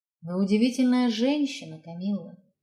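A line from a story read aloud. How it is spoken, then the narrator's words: Quiet. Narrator (Russian): тихо сказал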